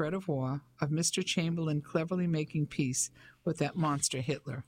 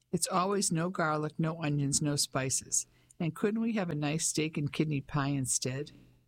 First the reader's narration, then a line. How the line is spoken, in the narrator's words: Ellie laughed